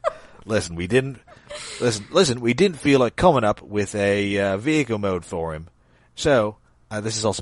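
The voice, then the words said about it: Imitates another person's voice. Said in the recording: “my Simon Furman impression... Simon Furman basically sounds like Jason Statham”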